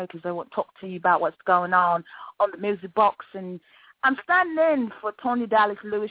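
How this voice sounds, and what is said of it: Put-on British accent. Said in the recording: “I'm putting on my British accent right now ... I love the accent. I could just be British.”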